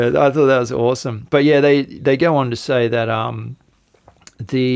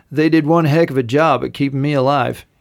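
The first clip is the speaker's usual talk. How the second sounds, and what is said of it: Put-on American accent. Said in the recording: “I'll do it in my American accent.”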